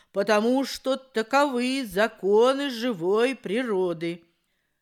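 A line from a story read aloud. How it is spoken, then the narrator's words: Stern old crow. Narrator (Russian): строго ответила старая ворона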